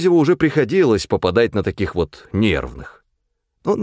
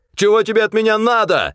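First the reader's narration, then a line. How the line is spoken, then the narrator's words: Shout. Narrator (Russian): закричал он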